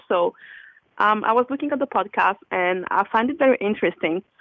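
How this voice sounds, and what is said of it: French accent speaking English. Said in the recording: “Sorry for my accent, because I'm French and I'm trying to speak in English.”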